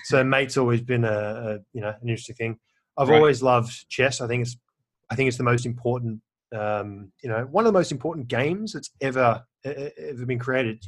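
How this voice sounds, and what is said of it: Australian accent. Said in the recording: “there's an Australian twang in the accent.”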